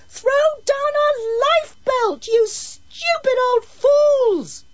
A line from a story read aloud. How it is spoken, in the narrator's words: bawled Carol